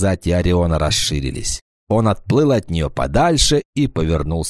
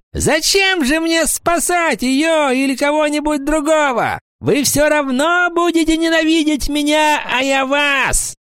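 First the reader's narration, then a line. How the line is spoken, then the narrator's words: Shouting. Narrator (Russian): Паламброн закричал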